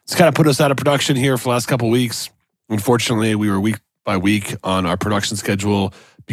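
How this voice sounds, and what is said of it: Raspy, strained voice. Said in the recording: “As you can tell by the sound of my voice, I'm a bit raspy, just getting over a trio combo of COVID, the flu, and believe it or not, strep throat, which has done a number to my vocal cords.”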